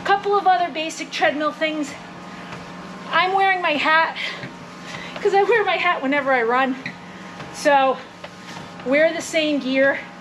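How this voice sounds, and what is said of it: Slightly out of breath. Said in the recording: “You can see I'm a little out of breath. That's because I was at a 15 incline and I'm sweating.”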